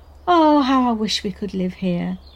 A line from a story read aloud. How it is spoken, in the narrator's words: Rachel sighed